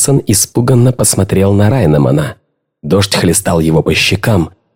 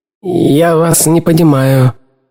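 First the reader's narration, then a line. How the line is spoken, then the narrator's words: Mumbling. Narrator (Russian): промямлил Пирсон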